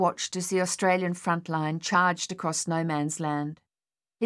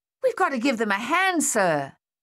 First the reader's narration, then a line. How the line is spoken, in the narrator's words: Thaddeus yelled